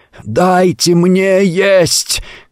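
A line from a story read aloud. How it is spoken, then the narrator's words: Soundless attempted shout. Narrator (Russian): крикнул он им и почувствовал, что хотел крикнуть в полный голос, а не издал ни звука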